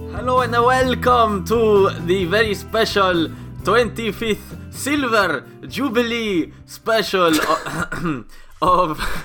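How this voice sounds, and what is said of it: Put-on Spanish accent. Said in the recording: “It's a sort of Catalonian goat farmer or something ... the Spanish accent ... Nadal's trainer, his disillusioned trainer, who's stuck in Mallorca”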